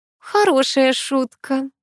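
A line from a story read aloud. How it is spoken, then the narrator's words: Grandmother's relaxed laugh. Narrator (Russian): расслабленно рассмеялась бабушка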